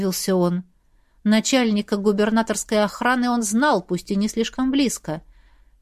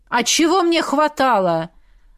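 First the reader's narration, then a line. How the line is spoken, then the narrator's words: Angry smirk. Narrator (Russian): Зло усмехнулся тот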